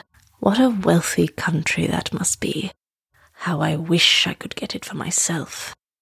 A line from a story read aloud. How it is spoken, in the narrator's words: he would mutter